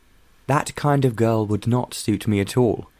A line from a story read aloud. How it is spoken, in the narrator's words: John said